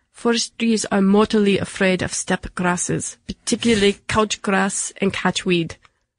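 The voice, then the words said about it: Put-on Russian accent. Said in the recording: “I will try my Russian accent, although I'm going to apologize in advance.”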